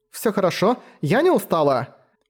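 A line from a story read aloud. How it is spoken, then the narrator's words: Hasty exclamation. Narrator (Russian): поспешно воскликнула Латина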